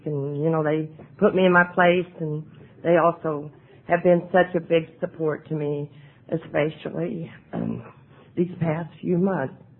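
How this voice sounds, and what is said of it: Hoarse, fading voice. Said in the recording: “I'm losing my voice already.”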